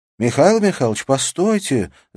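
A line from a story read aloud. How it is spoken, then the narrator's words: Shout. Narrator (Russian): закричала Александра Павловна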